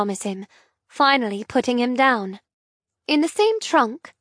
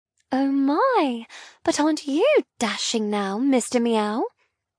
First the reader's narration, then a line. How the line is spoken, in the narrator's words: ask playfully